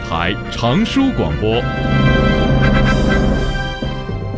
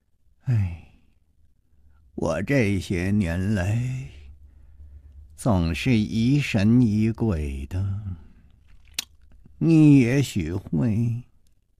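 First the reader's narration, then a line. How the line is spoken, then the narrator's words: Absent, long sigh. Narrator (Chinese): 他望着窗外的夜色，呆呆地出了一会儿神，才长叹了一声说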